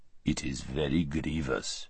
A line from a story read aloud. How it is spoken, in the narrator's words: said the Tisrock in his deep, quiet voice